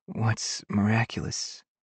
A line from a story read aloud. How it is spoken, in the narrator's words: She croaks